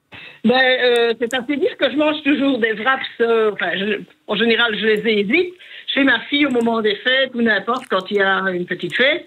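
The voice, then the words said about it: Regional Liège-area French accent. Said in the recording (French): “C'est près de Liège ... J'adore votre accent.”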